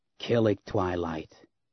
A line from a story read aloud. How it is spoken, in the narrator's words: a harsh female voice croaked behind Leia